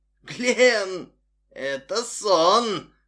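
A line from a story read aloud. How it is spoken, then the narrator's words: Hoarse croak. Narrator (Russian): прохрипел человек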